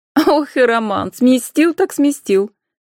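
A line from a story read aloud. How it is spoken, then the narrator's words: Laughing. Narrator (Russian): Анфиса рассмеялась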